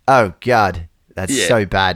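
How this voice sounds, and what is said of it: Attempted British accent. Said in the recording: “That's my attempt at a British accent.”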